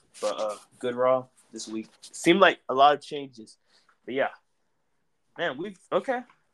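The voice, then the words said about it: Strained, fading voice. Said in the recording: “I'm losing my voice right now.”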